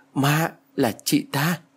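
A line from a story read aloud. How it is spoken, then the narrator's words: Stammering. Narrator (Vietnamese): Tôi lắp bắp nói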